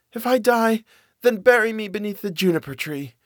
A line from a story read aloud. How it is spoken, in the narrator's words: cried and said